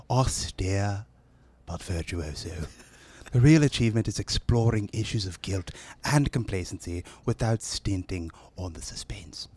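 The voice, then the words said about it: Put-on northern British accent. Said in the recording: “That sounded northern. ... That sounded northern with a little south. ... how was that accent? ... That was a real British accent. ... the American idea of what a British accent is?”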